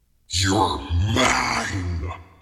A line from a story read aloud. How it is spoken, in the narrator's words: he snarled